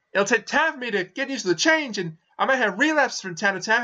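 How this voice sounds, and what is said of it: American accent. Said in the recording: “As you can hear, I am a red-blooded American ... I'm going to make a serious effort to sound like an American”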